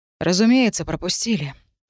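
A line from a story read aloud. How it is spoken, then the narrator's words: Sighing. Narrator (Russian): вздохнул агент Лайт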